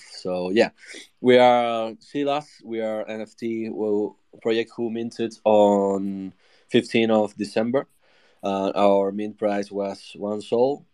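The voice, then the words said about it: Slightly off, unwell-sounding voice. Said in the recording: “Sorry if my voice is not perfect. I have COVID ... My voice could be a little off.”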